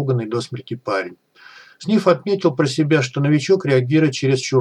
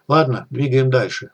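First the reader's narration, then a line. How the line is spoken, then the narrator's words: Even, flat voice. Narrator (Russian): ровным голосом сказал Сниф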